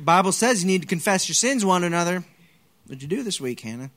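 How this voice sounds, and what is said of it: Put-on Southern accent. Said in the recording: “I don't know why it sounds southern”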